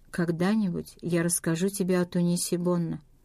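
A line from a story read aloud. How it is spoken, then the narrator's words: Quiet voice. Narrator (Russian): он произнес тихим голосом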